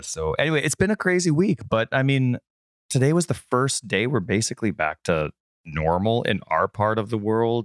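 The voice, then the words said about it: Inconsistent, strained sick voice. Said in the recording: “excuse my voice right now. It's a little inconsistent... COVID still has me”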